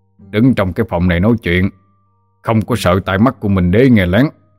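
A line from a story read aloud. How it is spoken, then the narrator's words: Stern voice. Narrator (Vietnamese): Bách Nhất đã nghiêm giọng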